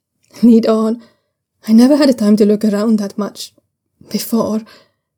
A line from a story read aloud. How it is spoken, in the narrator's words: he says, his voice catching at the last word